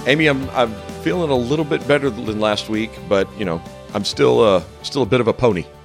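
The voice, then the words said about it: Slightly hoarse voice. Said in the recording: “I'm a little hoarse ... you're not as hoarse as you were last week.”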